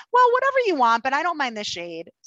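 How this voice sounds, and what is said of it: Cheerful, easygoing put-on voice. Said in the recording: “I have to say it in my good time girl voice.”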